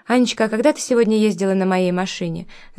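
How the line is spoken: Casual tone. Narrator (Russian): самым непринужденным тоном сказал Миша

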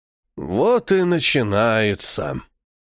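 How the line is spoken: Weary sighing old man. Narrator (Russian): Тяжко вздохнул выглядящий лет на 100 высокий усохший старик, устало

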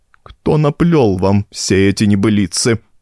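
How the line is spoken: Strangled voice. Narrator (Russian): спросил он сдавленным голосом

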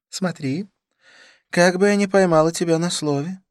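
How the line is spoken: Laughing. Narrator (Russian): рассмеялась она

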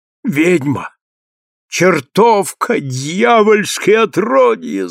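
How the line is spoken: Groaning. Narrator (Russian): застонал он

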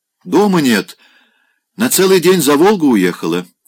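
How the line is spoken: Loud repetition. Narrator (Russian): громко повторил Викентьев

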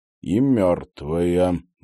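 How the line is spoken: Gloomy, to himself. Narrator (Russian): мрачно добавил про себя Станислав

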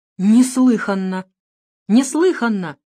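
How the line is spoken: Indignant exclamation. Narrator (Russian): воскликнул господин Краузе, у которого от возмущения

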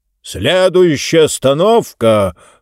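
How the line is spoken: Loud announcement. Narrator (Russian): объявил громким голосом

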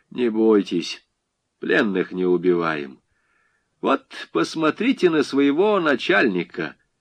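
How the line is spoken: Calm, after laughing. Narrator (Russian): Дундич засмеялся, спокойно сказал

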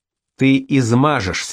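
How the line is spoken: Plain. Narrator (Russian): сказал Юзеф

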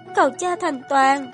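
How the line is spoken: Sobbing. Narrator (Vietnamese): thanh âm mang theo nức nở

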